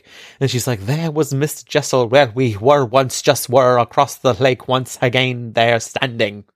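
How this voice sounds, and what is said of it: Dramatic put-on accent. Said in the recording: “you are loving this accent this episode... It's the drama. It's the heightened drama”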